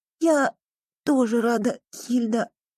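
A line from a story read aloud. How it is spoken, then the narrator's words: Girl's hoarse rasp. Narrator (Russian): прохрипела девочка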